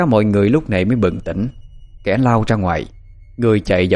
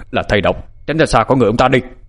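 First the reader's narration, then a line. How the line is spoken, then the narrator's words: Sudden shout. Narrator (Vietnamese): bác Lâm nhảy bổ vào, bác quát lên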